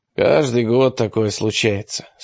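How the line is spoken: Calm remark. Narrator (Russian): спокойно заметил Питерс

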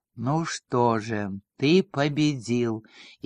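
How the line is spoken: Barely audible speech. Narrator (Russian): едва слышно промолвил Вильгельм

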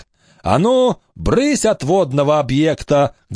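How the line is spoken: Booming clear bark. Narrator (Russian): гаркнул он уже без всякой сиплости так, что пригнулись камыши

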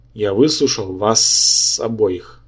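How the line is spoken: Hissed. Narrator (Russian): прошипел Йоксатхотх

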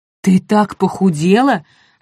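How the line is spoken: Exclaiming mother. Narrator (Russian): воскликнула Нань при виде дочери

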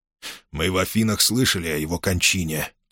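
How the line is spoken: Quiet. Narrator (Russian): тихо проговорил Кимон

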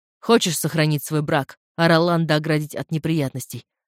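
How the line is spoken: Plain. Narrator (Russian): спросил Дилан

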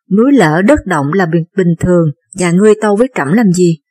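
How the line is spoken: Calm, smiling king. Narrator (Vietnamese): Không một chút lo lắng, U Vương mỉm cười nói

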